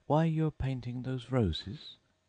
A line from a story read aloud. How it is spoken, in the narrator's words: said Alice, a little timidly